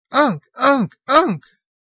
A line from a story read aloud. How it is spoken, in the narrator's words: cried primitively